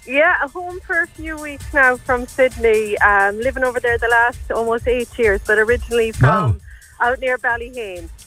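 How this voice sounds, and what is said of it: Strong local home-town accent. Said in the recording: “you never lost the accent ... And it's worse now. I'm home nearly 2 weeks and I'm gone fully back into it.”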